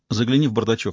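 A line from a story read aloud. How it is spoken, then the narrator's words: Plain. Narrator (Russian): сказала Медея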